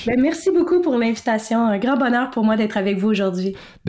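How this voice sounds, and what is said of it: Quebec French accent. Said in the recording (French): “vous l'aurez remarqué avec l'accent... je suis une bonne vieille québécoise”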